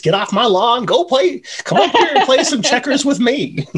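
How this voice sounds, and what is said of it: Crotchety old man voice. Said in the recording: “the perfect old man voice ... He's been really practicing it”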